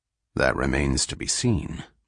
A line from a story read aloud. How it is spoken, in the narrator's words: muttered Selden